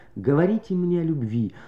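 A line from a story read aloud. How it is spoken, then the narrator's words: Faint, inaudible tender plea. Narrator (Russian): так тихо и плохо, что нежный призыв никем не был услышан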